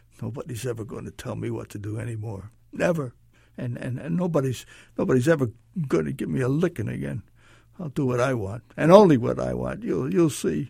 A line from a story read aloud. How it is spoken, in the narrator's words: he would try to conceal his sobs, repeating to himself over and over